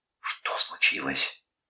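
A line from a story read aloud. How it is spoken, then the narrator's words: Quiet whispered question. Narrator (Russian): тихо тоже шепотом спросила она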